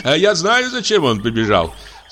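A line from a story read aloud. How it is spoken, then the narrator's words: Laughing nobleman. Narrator (Russian): засмеялся граф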